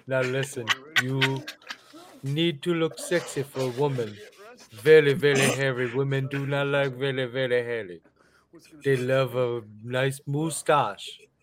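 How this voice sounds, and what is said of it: Put-on accent, mixing two accents. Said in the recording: “I'm like mixing both fucking accents. I can't do it.”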